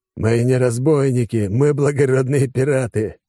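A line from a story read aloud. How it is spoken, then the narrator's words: Wry snort. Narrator (Russian): рядом хмыкнул Алекс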